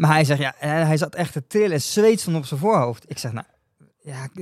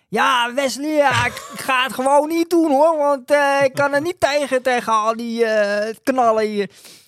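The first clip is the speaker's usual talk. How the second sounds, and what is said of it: Shouted Amsterdam accent imitation. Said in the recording (Dutch): “oma heeft een beetje een soort van Amsterdamse accent, een beetje ... Dus die begon me daar te schreeuwen ... Een beetje in het Amsterdamse ook.”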